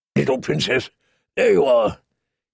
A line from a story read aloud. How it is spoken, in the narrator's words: he said in his gruff, kind voice